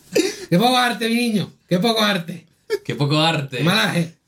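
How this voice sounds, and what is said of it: Imitated Andalusian Spanish accent. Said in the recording (Spanish): “¿Cómo hablan los andaluz? ... ¿Cómo te va a hablar un andaluz así?”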